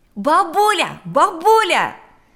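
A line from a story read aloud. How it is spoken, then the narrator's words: Shouting from doorway. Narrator (Russian): закричал он с порога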